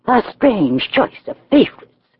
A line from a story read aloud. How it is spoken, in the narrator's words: she observed scornfully